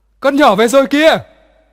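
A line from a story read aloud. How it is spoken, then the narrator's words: Excited distant call. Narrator (Vietnamese): trên nhà reo lên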